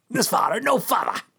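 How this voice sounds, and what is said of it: Imitates a TV character's voice. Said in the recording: “That's my Picard accent.”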